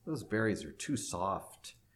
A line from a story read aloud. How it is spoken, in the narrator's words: they grumbled